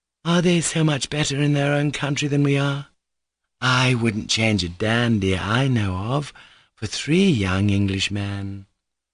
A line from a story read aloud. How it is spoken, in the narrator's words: observed Maria Kondratyevna tenderly